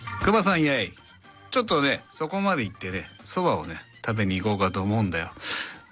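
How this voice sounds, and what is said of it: Rakugo storyteller character voice. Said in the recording (Japanese): “モノマネというか落語のお蕎麦を食べるのをやってほしいです ... 落語家さんのようにうまくできるでしょうか”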